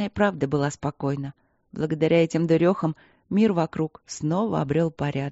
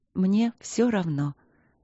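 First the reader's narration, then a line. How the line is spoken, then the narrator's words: Soft repetition. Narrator (Russian): мягко повторила Ангелина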